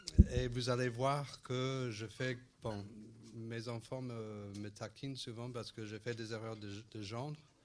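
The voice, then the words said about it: Strong foreign accent in French. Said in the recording (French): “j'ai un petit accent, bon, un fort accent de temps en temps”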